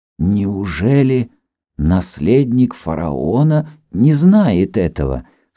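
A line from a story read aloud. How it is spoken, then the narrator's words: Hesitant question. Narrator (Russian): спросил Хирам нерешительным тоном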